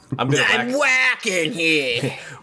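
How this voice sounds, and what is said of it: Put-on New York accent. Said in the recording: “you said walking, but in a New York accent.”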